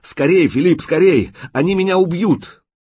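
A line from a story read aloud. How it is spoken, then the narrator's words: Hoarse, despairing shout. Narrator (Russian): обреченно, хрипло закричал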